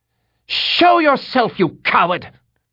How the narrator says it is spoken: Shadea screamed in fury

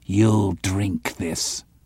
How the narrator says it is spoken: he growled

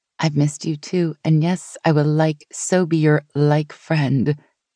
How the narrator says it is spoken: she said in a Valley Girl accent

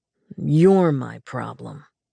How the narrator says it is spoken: he growled

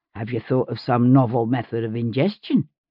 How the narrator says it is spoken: Fanny giggled behind me

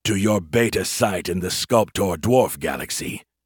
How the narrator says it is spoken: Zovank growled

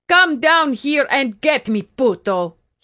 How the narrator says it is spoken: he was yelling

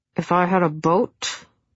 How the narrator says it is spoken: he mumbled around his cigarette

